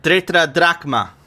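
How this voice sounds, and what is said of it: Put-on Greek accent. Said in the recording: “You have to say it with a Greek accent.”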